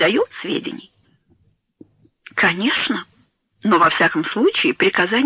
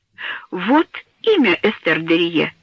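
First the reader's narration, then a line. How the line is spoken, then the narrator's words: Exclaimed. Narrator (Russian): воскликнул он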